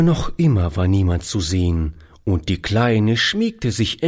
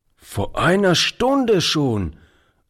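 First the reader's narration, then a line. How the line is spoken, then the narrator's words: Old man calling out. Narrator (German): rief der Alte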